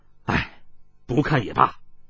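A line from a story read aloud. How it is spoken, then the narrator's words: Long heavy sigh. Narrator (Chinese): 想到自己所肩负之重任，长叹道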